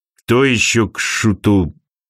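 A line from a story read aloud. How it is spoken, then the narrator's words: Muttered. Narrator (Russian): пробормотал Архангел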